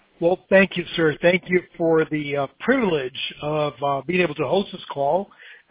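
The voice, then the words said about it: Southern American y'all accent. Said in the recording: “you can hear my y'all accent”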